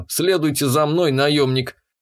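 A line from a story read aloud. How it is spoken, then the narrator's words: Gruff mutter over comms. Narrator (Russian): буркнул связью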